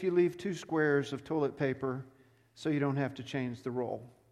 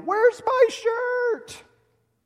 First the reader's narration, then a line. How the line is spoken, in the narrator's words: yell